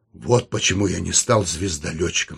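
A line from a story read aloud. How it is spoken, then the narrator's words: Slightly hoarse. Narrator (Russian): сказал он немного хрипло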